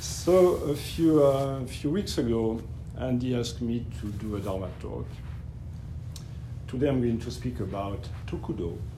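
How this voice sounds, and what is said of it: French accent. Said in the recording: “it will be definitely with a French accent”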